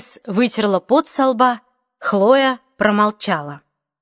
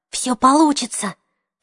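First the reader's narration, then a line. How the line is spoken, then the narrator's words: Whisper. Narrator (Russian): прошептала Хлоя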